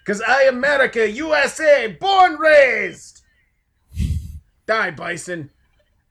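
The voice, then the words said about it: Exaggerated broken-English American hero voice. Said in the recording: “I sound like this accent”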